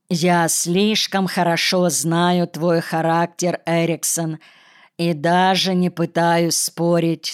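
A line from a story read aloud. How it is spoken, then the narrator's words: Plain. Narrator (Russian): сказал он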